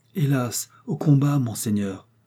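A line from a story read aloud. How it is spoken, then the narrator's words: Sad reply. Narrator (French): répondit tristement Catherine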